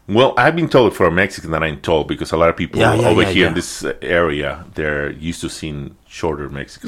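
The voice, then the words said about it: Mixed Mexican Spanish accent. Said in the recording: “my accent, you cannot really tell where I'm from... You just know I'm not from around here. You might get an idea that I'm Mexican... my accent is being all over the place”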